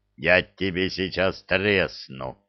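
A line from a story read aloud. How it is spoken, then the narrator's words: Troll's growl. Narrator (Russian): Прорычал тролль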